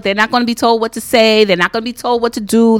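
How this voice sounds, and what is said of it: New York accent, hint of Jersey. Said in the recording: “her New York accent just takes over... That little twist of Jersey in it, too.”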